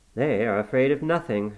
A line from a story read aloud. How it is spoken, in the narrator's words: I grumbled